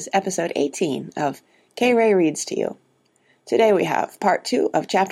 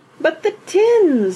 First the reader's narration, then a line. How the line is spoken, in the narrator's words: wailed Mrs